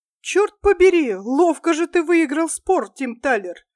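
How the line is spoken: Laughing. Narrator (Russian): рассмеялся господин Рикерт

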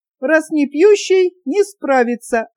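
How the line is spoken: Playful shout, young woman. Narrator (Russian): озорно поведя черной бровью, выкрикнула полногрудая молодица

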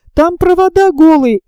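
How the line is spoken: Shout. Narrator (Russian): Электротехник крикнул

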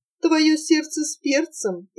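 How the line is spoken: Playful, laughing. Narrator (Russian): играючи погрозила Анфиса и засмеялась

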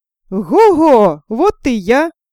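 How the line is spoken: Shouting again. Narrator (Russian): Опять закричал Ганс Чурбан

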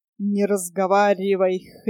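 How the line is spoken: Hoarse croak in ear. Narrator (Russian): хрипло каркнул Фумли-Друмли Нильсу в самое ухо

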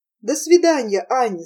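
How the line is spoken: Plain. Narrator (Russian): сказал он наконец

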